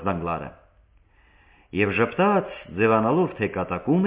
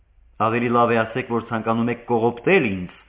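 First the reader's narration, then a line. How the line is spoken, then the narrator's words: Bitter exclamation. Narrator (Armenian): բացականչեց Դագլարն այնպիսի դառնությամբ, որը միայն հարպագոնը կարող էր ըստ արժան բույն գնահատել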